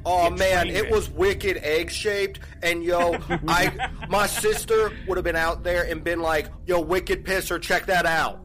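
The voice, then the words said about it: Exaggerated Boston accent. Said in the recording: “de-Boston accented ... try an accent”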